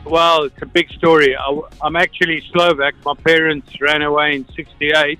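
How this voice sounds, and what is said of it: South African accent. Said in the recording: “I just heard the South African accent come out. Is that South African?”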